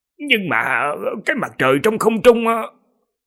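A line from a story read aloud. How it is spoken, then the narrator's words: Stammering. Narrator (Vietnamese): Một vị thần thông giả lắp bắp nói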